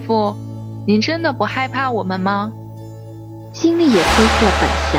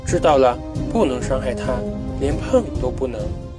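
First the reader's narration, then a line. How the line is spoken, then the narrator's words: Quiet muttering. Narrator (Chinese): 星星小声嘀咕道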